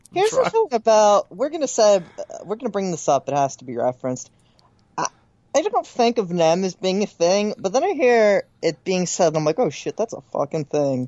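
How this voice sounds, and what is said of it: Moderate Philadelphia accent. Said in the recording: “My Philadelphia accent is somewhere in between full and, like, you can hear it ... It's way less thick”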